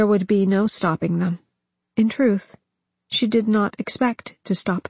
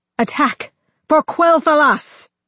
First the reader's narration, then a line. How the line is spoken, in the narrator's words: Sylvanas took a deep breath and shouted